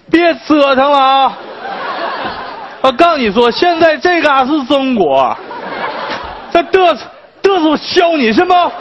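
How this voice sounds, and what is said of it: Put-on accent like Fukuhara Ai's. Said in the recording (Chinese): “就这种口音，他是什么外国父母啊？对吧？会有外国人是这种口音吗？一看你们就不认识福原爱。”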